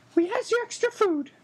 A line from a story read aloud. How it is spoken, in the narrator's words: squeaked an elf